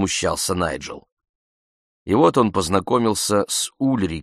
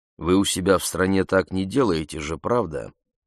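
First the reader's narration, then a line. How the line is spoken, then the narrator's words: Cold question. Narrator (Russian): холодно спросил Обинзе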